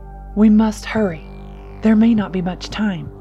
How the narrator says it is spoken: he urged, his voice edged with urgency

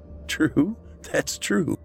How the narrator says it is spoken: Matt said with a laugh

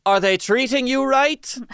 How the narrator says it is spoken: he would loudly ask her

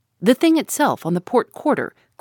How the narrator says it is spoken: cried the harpooner

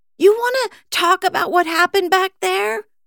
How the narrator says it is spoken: Kit shouted

